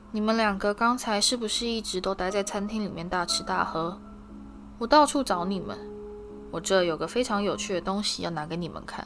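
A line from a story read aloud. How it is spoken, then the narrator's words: Slow drawl. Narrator (Chinese): 用他慢吞吞的语气说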